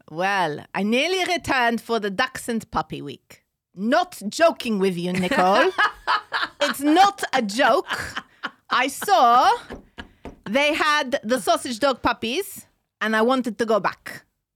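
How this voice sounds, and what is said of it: Put-on Israeli accent. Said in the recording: “I want you to do it in an Israeli accent, though.”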